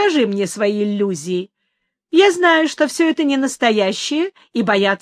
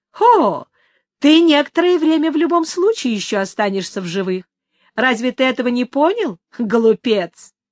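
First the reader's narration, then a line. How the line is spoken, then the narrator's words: Amused. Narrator (Russian): Ей почему-то стало весело, и она ответила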